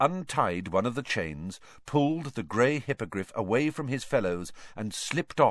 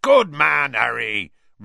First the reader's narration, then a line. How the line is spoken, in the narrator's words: roared Hagrid